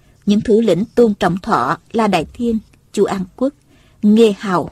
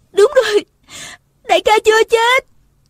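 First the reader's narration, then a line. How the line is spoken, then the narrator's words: Woman's excited cry. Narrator (Vietnamese): nàng la lên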